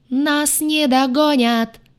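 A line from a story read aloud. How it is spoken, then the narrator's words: Howling. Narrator (Russian): взвыла я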